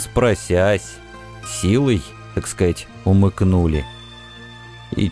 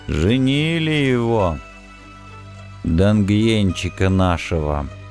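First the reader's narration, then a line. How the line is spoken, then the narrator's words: Tired voice after pause. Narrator (Russian): после долгой паузы бросил обломок непривычно уставшим голосом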